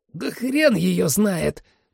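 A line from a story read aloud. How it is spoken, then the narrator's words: Hoarse wheeze. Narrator (Russian): просипел Майло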